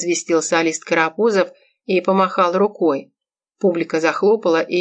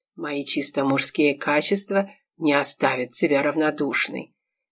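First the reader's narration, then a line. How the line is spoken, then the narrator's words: Intimate tone. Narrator (Russian): интимным тоном поведал Миле мужик в красной рубашке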